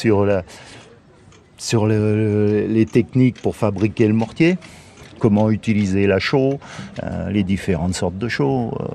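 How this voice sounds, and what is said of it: Slight Lyonnais French accent. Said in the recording (French): “un petit accent lyonnais ... Je suis complètement lyonnais, un bon gone”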